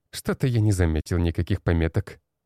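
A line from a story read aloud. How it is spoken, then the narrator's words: Snorting. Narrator (Russian): хмыкнул тот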